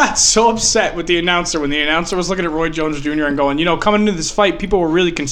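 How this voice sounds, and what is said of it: Usual voice. Nothing is said of it.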